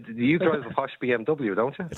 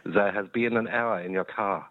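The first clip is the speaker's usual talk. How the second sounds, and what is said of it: Put-on German accent. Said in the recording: “you get a German accent in your BMW talking to you”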